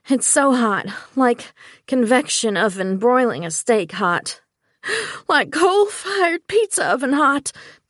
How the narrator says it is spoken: Tamika gasped out

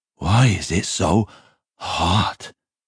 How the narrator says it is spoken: moaned Jeremias

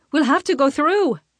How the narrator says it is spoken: Freya shouts

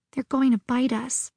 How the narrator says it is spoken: she whispered

